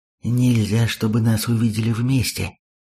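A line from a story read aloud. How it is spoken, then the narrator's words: Frightened whisper. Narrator (Russian): испуганно шепнул Имин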